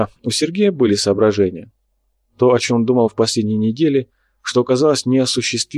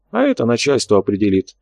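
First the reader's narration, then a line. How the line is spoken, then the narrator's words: Calm reply. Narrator (Russian): спокойно ответил Карабаев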